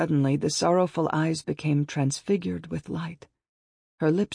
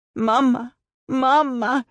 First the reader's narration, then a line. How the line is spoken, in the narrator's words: I sobbed